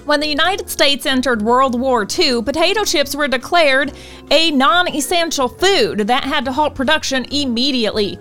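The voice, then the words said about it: Put-on Southern US accent. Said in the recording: “in my southern voice”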